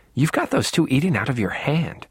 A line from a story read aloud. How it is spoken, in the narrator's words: murmured